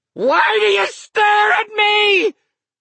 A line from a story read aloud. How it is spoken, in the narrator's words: He shrieked, and in his drunkenness